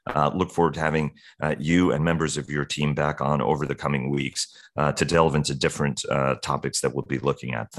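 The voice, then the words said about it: Hoarse, strained voice. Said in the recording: “I apologize for my throat... I'm losing my voice.”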